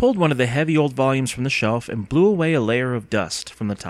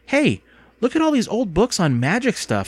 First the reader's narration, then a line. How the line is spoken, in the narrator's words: Andy exclaimed